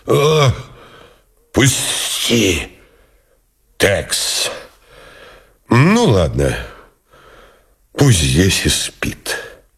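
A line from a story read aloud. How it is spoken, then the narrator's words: Wheezed hoarsely. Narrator (Russian): не прохрипел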